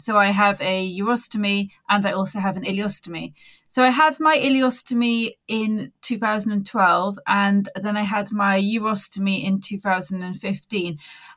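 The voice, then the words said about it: Faded Welsh accent, slight Dorset twang. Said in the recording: “I'm originally from Wales, but I've kind of lost my accent, so it's not really very well sounding. It's a bit of a Dorset twang in there”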